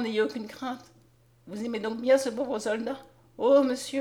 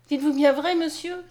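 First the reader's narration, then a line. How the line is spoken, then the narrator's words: Exclaiming. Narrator (French): s'écria Mariette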